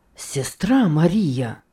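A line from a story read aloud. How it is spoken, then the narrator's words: Ardent exclamation. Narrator (Russian): пылко воскликнул он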